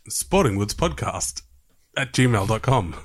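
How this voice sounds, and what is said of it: Impression of Frank Walker. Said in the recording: “Now, do it as Frank Walker from National Tiles.”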